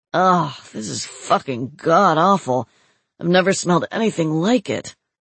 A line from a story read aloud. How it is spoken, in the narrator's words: groaned